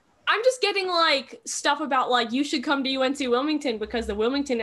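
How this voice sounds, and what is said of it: Usual voice. Nothing is said of it.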